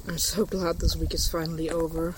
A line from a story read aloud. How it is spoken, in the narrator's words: Clint muttered